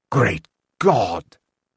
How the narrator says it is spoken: whispered Cain

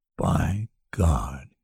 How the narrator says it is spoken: he said softly

